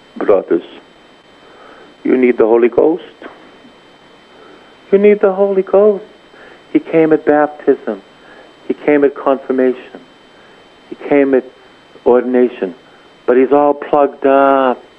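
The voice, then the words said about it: Gentle put-on Italian accent. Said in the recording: “in a gentle way, with my Italian accent”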